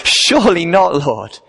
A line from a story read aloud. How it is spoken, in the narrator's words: in typical Peter fashion, he cries